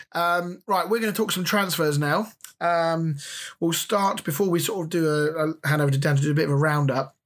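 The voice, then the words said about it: Hoarse, fading voice. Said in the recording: “My voice is slowly disappearing from me.”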